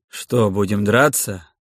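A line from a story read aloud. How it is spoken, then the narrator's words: Ironic snorting question. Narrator (Russian): спросил Кирсан, иронично хмыкнув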